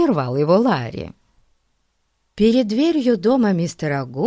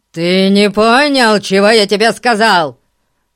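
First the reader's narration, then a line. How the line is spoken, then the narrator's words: Roaring. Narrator (Russian): проревел мистер Гун племяннику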